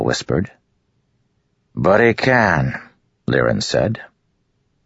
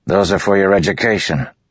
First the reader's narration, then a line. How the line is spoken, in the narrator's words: Liren snapped